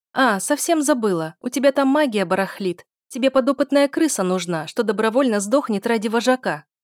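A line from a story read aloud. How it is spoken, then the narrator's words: Shouted parting words. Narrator (Russian): крикнула напоследок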